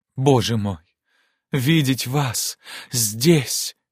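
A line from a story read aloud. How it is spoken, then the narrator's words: Moaning. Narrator (Russian): простонала она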